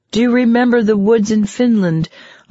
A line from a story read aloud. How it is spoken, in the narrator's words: I would have to shout